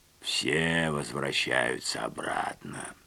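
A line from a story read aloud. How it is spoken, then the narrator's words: Hoarse, calmed down. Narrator (Russian): прохрипел Рихтер, успокоившись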